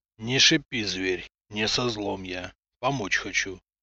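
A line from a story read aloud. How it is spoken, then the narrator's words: Gruff mutter. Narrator (Russian): буркнул человек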